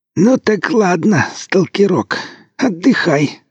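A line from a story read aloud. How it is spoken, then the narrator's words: Creaky old man's voice. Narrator (Russian): проскрипел дед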